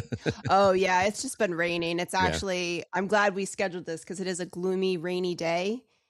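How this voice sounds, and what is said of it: Slightly congested voice. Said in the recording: “Been a little under the weather ... I sound a little congested”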